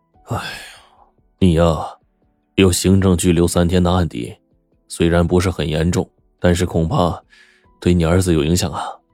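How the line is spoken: Sighing. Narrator (Chinese): 陈警官叹息说

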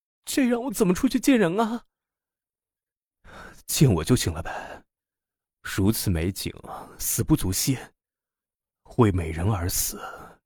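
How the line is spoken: Gasping, anguished cry. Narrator (Chinese): 他像是一条喘不上气来的鱼一样 苦闷的叫道

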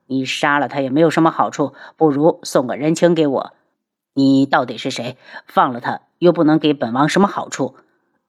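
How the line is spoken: Cold. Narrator (Chinese): 他冷声

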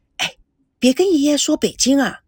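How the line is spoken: Quiet. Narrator (Chinese): 赵美娇立刻小声的对赵熙说

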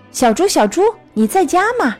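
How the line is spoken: Calling out. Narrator (Chinese): 我在门口喊着

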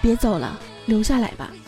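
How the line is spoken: Gentle. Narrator (Chinese): 王子温柔的说道

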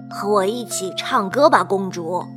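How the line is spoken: Whispered through a keyhole. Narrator (Chinese): 音乐老师透过门锁，低声对公主说道

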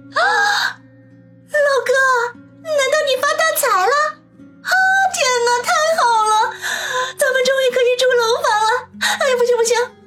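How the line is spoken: Overjoyed exclamation. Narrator (Chinese): 王鑫听了之后，顿时大喜，失声叫道

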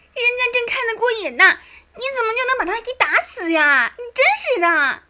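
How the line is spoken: Girl clamoring. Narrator (Chinese): 小丫头……嚷嚷道

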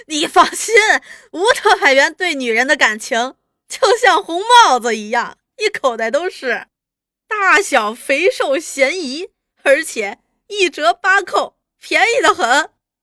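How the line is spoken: Laughing heartily. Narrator (Chinese): 朱大同哈哈大笑

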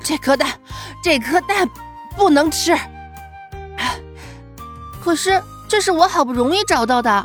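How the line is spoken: Panting. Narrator (Chinese): 小熊喘着气说

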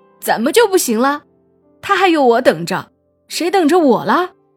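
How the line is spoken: Loud crying wail. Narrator (Chinese): 大壮哭了起来，越哭声音越大，边哭边喊

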